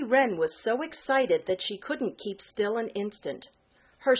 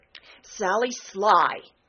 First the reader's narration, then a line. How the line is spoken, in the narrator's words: snapped Jenny Wren